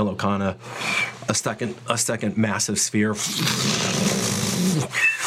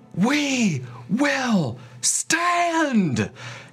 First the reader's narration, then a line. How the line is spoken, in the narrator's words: She screams